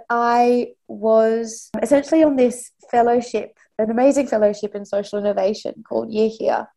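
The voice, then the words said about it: Australian accent. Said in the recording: “You can probably tell by my accent, I'm I'm Australian”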